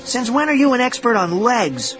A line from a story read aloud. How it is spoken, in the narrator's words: I cried